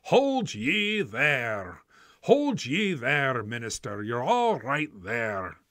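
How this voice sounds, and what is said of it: Put-on Scottish accent. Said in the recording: “I don't know how good my Scottish accent is”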